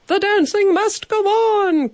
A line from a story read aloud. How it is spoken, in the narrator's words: cried the hotel manager, Mr